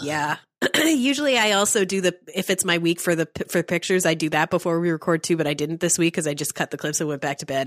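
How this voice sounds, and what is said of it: Congested voice from a cold. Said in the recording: “I'm sick. ... So sorry if you hear me blow my nose ... I have a cold.”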